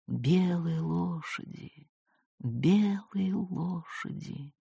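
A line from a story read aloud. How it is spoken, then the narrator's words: Old woman whispering, moaning. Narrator (Russian): баба Устья прошептала, простонала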